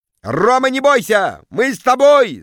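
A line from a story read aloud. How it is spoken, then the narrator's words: Crowd yelling. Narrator (Russian): завопили в зале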